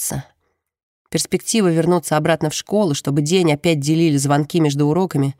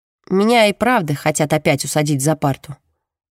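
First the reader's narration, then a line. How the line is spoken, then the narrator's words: Gloomy. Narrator (Russian): мрачно говорит Джемма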